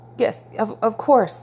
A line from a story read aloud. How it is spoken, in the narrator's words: he stammered, trying to keep his heart from leaping into his throat